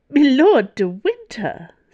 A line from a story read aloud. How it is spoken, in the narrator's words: said the cardinal, on the verge of laughter